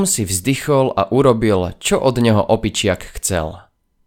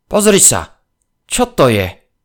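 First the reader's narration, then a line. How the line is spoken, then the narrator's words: Sudden exclamation. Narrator (Slovak): Fintor odrazu zvolal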